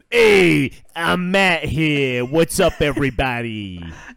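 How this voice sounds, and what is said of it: Imitates another person's voice. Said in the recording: “do a better Matt impression.”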